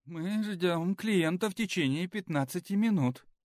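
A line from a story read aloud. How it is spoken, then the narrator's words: Frightened woman. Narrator (Russian): испуганно сказала администраторша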